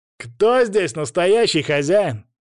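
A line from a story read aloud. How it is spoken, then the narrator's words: Loud, insolent. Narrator (Russian): громко и нагло заявил он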